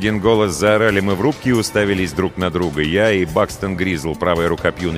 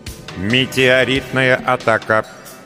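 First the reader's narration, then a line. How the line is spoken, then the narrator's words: Synthetic voice announcing. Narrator (Russian): синтетическим голосом вещала система безопасности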